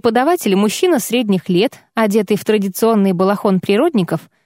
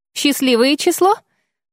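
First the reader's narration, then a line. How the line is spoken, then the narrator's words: Cheerful smiling statement. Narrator (Russian): радостно улыбаясь, констатировал болтливый врачеватель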